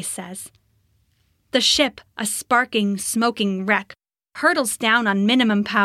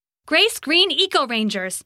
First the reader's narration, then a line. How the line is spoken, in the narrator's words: Grace shouts